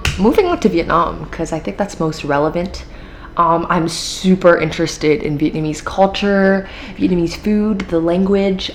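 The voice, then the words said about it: American accent. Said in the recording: “I picked up my American accent.”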